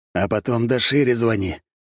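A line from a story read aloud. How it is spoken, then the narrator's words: Hoarse. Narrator (Russian): хрипло отозвался Агава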